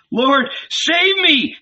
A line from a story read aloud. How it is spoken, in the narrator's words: he screamed